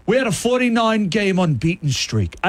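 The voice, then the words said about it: Put-on Australian accent. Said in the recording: “I don't know why I'm doing Australian accent because he's British.”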